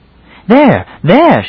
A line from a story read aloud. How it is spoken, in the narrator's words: she cried suddenly